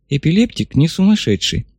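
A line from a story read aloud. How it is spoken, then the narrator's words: Quiet statement. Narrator (Russian): негромко констатировал Гандла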